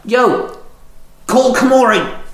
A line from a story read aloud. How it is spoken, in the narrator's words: Shinzo called out